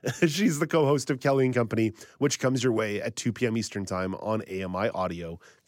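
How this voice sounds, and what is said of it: Hoarse, strained voice. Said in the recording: “I am apparently losing my voice ... after I've cleared my throat”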